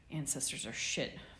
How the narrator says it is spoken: mumbled Sirius, midway to a snore

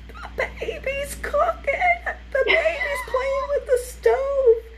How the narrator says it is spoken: my mom's sister screamed

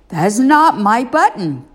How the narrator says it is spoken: cried Toad

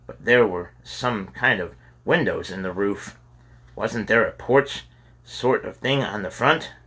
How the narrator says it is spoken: James asked

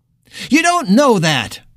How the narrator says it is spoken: Rhonda countered sharply

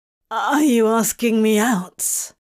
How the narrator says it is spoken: he asked, his voice emerging a bit rough and croaky

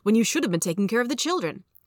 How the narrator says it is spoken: said impatiently

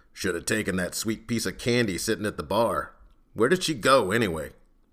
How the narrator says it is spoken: Vorist growled

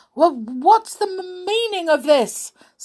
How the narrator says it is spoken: stammered the colonel

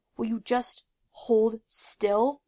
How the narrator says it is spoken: Zuko grunted

